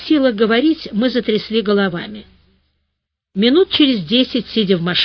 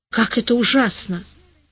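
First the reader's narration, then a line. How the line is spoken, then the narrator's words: Forced out with difficulty. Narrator (Russian): смогла, наконец, выдавить из себя Капа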